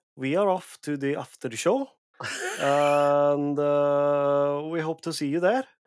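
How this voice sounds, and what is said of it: Put-on Norwegian accent. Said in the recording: “Can you do a Norwegian accent?”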